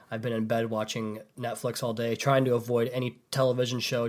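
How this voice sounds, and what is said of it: Sick, rough-sounding voice. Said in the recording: “I apologize for my voice. I know I sound like crap”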